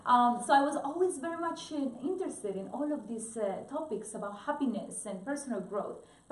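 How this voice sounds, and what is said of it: Colombian Spanish accent. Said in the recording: “Colombia, which is where I am originally from, in case you didn't notice I have an accent”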